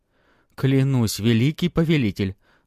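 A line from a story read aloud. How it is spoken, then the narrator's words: Pleading. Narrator (Russian): взмолился Сунг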